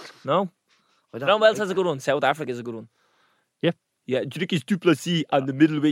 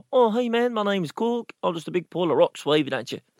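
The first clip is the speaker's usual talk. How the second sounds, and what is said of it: Put-on New Zealand accent. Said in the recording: “the New Zealand accent. You ever hear Cork out of Thor?”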